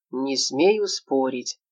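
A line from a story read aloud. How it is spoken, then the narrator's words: Gloomy reply. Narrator (Russian): мрачно отозвался Тутамонов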